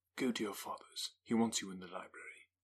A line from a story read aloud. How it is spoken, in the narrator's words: said in a whisper